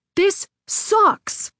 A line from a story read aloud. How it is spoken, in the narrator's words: yelled